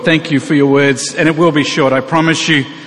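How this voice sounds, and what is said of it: Australian accent. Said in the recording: “I am American, that accent is Australian.”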